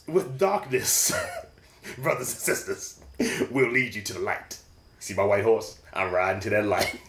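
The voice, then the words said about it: Old Spice commercial announcer voice. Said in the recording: “made me sound like an Old Spice commercial”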